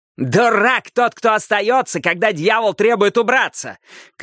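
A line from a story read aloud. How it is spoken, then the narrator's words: Shouted. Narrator (Russian): крикнул Каттер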